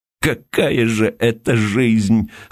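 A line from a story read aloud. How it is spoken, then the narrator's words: Anguished male voice. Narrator (Russian): снова заговорил он страдальческим голосом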